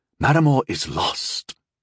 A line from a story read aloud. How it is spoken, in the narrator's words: Rondal said, his voice aching as he spoke